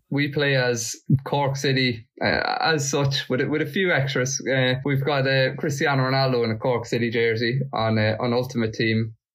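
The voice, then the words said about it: Irish Monaghan accent, not Cork. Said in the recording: “that's not a Cork accent. So you're from Monaghan yourself.”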